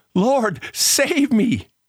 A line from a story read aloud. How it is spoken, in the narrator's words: Peter cries out